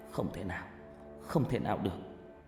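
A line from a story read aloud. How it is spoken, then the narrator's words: Sighing. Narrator (Vietnamese): Tôi thở dài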